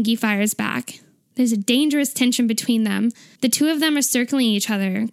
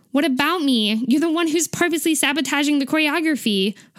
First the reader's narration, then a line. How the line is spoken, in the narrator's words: Hoseok snaps back